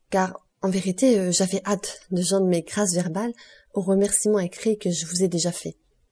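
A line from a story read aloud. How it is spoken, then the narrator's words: Exclaimed. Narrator (French): s'écria-t-elle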